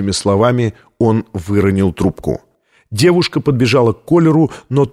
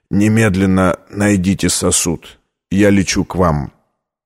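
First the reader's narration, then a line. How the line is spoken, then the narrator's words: Choking, coughing, tearful strain. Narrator (Russian): Зайдясь в приступе кашля, он, задыхаясь и заливаясь слезами, выдавил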